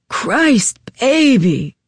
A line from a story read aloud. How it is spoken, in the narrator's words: he growled